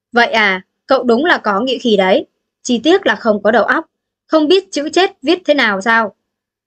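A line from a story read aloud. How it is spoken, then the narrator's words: Cold mocking laugh. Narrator (Vietnamese): Đạo chủ lạnh lùng bật cười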